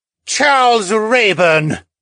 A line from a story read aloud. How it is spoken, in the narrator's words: a male voice roared